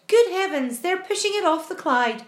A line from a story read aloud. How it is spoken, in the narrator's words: cried James